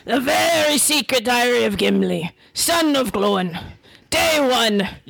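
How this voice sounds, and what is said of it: Scottish accent as Gimli. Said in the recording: “You better have like a mean Scottish accent for this. ... Picture Brave. ... Mixed with Indiana Jones.”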